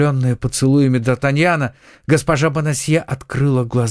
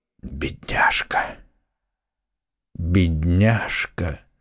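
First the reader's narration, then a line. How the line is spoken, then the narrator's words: Hoarse whisper. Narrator (Russian): хриплым голосом шептал Атос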